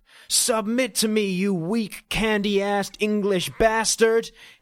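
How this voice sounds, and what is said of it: Shouted poor American Bronx accent. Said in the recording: “he screamed in a poorly articulated American accent ... channeling the Bronx”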